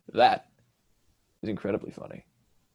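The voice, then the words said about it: Dry, bland deadpan voice. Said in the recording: “Just in the most dry, bland voice ever.”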